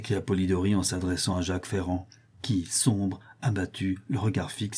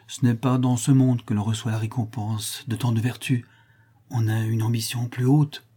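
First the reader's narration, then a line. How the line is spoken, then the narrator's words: Sad priest. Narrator (French): dit tristement l'abbé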